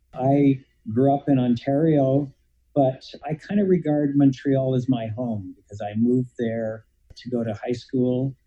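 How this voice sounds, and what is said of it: Canadian accent. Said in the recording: “I'm a Canadian, as people who listen to my accent will always tell me.”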